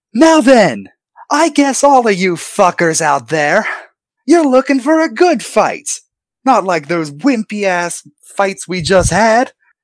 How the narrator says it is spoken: Ringmaster starts, he shouts out

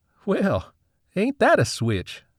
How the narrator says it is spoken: said Maxwell with an easy chuckle

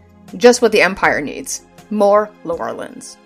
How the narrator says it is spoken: Raythea growled at Janine and said

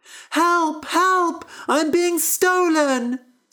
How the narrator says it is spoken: screamed the harp

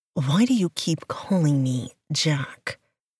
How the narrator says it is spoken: he asked

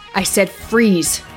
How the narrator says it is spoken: shouted Darren

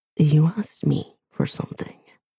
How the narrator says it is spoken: he murmurs

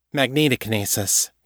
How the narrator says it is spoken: Callie said

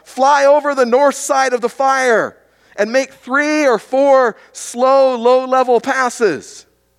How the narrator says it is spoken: Over the sound of the plane and the propeller, he yelled out

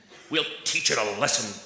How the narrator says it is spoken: growled the shortbread teddy bear

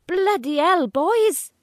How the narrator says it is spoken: He shouts in his Welsh Valley accent

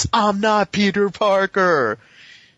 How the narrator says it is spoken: screams and declares

